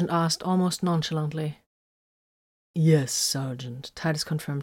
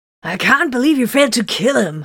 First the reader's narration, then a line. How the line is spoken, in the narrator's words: Hiron spat